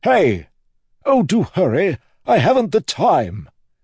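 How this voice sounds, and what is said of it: Breathy, haughty upper-class character voice. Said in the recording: “Speak like you couldn't breathe right. High first octant accent, with a little terrace stirred in. Rich accent. Very rich.”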